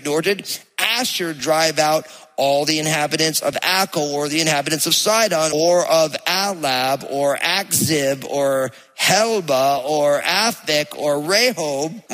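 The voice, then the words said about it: New Jersey accent. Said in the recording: “You hear my Jersey accent coming out when I'm trying to pronounce these things.”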